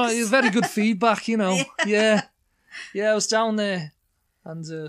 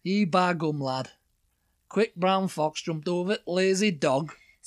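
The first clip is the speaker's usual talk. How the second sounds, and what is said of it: Put-on Yorkshire accent. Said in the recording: “Yorkshire, the next one ... I love that accent”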